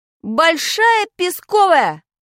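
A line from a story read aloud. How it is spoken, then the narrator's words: Quick shout. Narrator (Russian): крикнул я, не раздумывая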